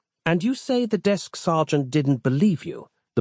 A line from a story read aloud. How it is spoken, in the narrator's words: asked